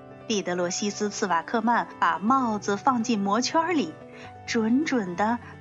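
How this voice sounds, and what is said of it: Usual voice. Nothing is said of it.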